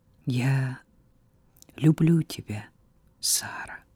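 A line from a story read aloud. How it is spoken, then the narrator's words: Quiet. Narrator (Russian): тихо произнес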